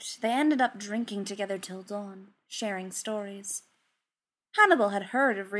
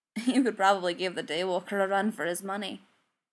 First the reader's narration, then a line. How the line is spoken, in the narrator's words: chuckled